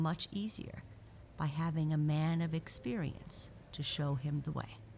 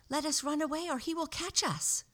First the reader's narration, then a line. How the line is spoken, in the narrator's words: cried